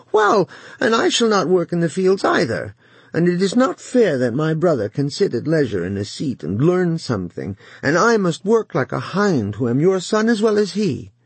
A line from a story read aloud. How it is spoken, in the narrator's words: he whined forth to his father